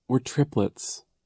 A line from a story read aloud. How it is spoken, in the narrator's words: Isadora said sadly